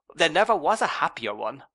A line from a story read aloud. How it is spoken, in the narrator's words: I exclaimed